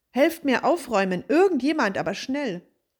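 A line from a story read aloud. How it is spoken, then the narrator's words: Call. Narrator (German): rief er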